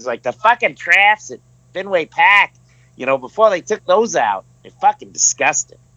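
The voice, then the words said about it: Put-on hardcore Boston accent. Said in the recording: “a hardcore Boston accent ... It's good accent, by the way. ... You're doing a good job there”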